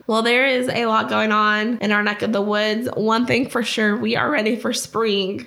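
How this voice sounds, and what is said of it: Rough, unclear voice. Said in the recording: “I hope my voice is a little bit better. Been sick for about a month ... Hopefully next time I have a clearer voice”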